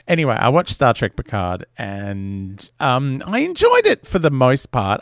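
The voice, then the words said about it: Speaks with a strong accent. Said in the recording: “because of my ridiculous accent, it sounds like I sound like a chicken.”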